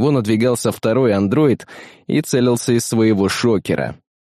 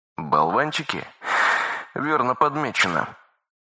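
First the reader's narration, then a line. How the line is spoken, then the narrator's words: Exhale. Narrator (Russian): выдохнул Магеллан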